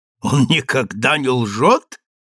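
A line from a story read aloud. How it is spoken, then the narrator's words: Laughing question. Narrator (Russian): рассмеялся Освельд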